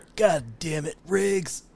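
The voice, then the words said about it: Imitates another person's voice. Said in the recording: “you do a pretty good Danny Glover impression”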